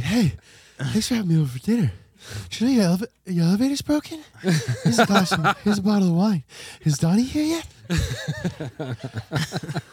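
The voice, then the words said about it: Breathless imitation of another person's voice. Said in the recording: “Out of Breath Mark Wahlberg”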